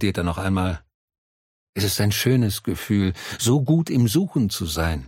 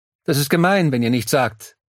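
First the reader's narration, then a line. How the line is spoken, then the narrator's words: Trying out loudly. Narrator (German): probiert er laut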